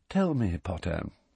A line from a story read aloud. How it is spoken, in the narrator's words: said Snape softly